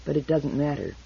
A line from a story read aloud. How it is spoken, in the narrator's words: said the fox softly